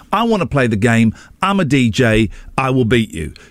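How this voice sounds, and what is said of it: Put-on American accent. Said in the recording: “I'm trying to do an American accent. I don't know if that's coming across.”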